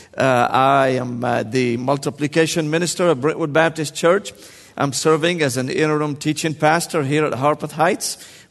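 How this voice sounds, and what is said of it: Slight Syrian accent. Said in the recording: “a little bit of an accent ... I was born and raised in Damascus, Syria”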